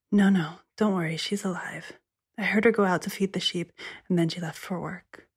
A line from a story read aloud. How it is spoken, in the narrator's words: The sister said, whispering